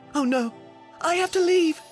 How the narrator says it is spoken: gasped Cinderella

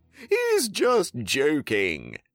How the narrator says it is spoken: they all laughed

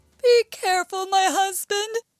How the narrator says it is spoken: shouted the giantess from the castle

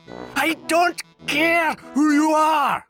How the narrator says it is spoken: shouted the troll

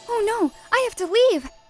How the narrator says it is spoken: gasped Cinderella

